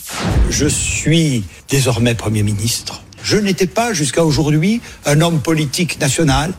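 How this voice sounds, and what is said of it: Regional French accent. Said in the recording (French): “Jean Castex ... a été moqué, brocardé tout le week-end sur les réseaux sociaux. Pourquoi À cause de son, de son accent.”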